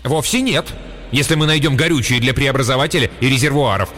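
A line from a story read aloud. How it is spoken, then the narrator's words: Sharp. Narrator (Russian): резко напомнил ему Блейн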